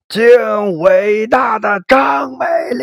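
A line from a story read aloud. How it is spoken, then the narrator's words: Hysterical crowd shouting. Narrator (Chinese): 众人跟着歇斯底里的喊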